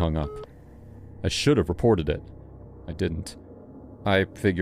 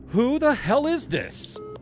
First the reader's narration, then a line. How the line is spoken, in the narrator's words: I shouted into the receiver